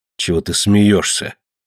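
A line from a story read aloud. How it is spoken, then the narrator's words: Irritated question. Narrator (Russian): раздраженно спросил Ка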